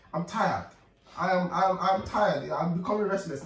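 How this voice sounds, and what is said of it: Pained, weary voice. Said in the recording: “I heard the pain in his voice.”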